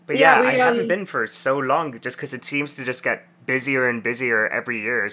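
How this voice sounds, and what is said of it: Slight South African accent. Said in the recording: “I'm originally from South Africa ... That's what the accent is. ... there's a little bit of an accent”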